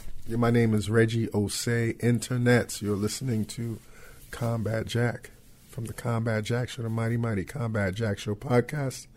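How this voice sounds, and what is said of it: Slightly frail, cold-affected voice. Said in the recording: “I have a little cold, so if I sound a little frail in the throat”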